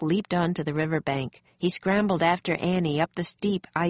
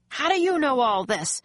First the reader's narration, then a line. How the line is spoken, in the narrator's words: the major shouted above the storm